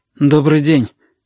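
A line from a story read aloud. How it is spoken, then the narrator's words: Hoarse voice. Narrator (Russian): хрипло сказала Сашка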